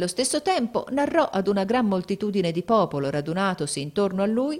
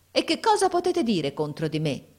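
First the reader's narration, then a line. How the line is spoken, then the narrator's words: Exclaiming. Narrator (Italian): esclamò mio fratello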